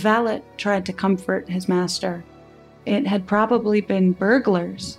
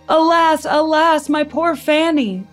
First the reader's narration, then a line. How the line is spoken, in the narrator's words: the Duke shouted